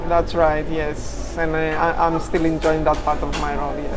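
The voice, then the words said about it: Greek accent in English. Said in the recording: “you've got a bit of an accent there ... I'm originally from Greece ... I'm keeping the accent for effect”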